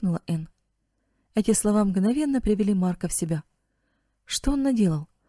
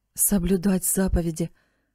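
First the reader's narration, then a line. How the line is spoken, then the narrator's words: Sad mutter. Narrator (Russian): печально пробормотал он себе под нос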